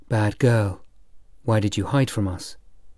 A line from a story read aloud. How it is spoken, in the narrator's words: whispered